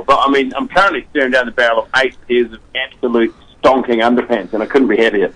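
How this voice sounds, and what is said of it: New Zealand accent. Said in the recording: “for our listeners who can definitely pick up on your accent ... you are a native New Zealander?”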